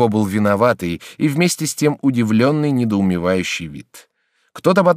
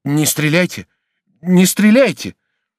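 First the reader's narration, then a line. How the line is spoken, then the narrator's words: Exclaiming. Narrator (Russian): воскликнул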